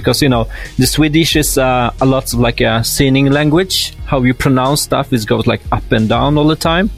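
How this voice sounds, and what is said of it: Strong Polish accent in English. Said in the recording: “I still have like a Polish, really hard one accent ... I had this kind of really hard accent”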